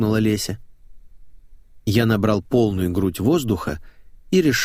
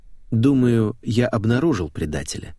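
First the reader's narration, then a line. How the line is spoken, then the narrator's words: Calm. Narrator (Russian): спокойно продолжал я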